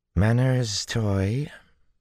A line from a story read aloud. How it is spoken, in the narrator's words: Tuon drawled, like honey sliding out of a dish